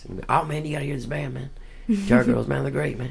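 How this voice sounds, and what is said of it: Close impression of a friend. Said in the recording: “That's a great impression. ... You sound exactly like him.”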